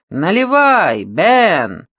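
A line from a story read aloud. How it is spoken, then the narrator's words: Man shouting. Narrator (Russian): крикнул какой-то мужчина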